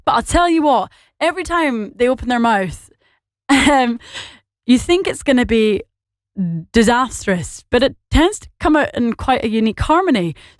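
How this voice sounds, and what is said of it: Scottish accent with Northern Irish twang. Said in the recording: “my accent is not, it's not really English, is it? In fact, it's not at all English. It's fully and completely Scottish with an Irish, well, Northern Irish twang”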